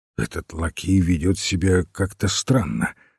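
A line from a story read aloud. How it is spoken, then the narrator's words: Plain. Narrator (Russian): сказал он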